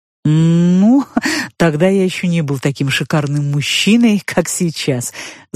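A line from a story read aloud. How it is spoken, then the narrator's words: Giant's laugh. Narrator (Russian): засмеялся великан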